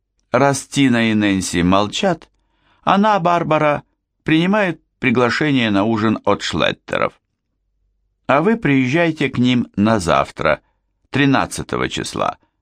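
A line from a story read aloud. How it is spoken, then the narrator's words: Brisk, eager to be rid. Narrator (Russian): бодро закончила Дороти, явно желая поскорее отделаться от дочери своего босса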